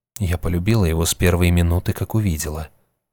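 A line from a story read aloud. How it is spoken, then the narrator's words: Calm. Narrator (Russian): спокойно ответила женщина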